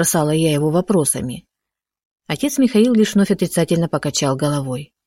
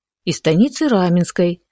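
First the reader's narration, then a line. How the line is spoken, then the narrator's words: Calm explanation. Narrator (Russian): спокойно пояснил батюшка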